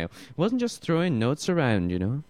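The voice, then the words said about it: Imperfect put-on Welsh accent. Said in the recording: “I haven't got the Welsh accent quite right”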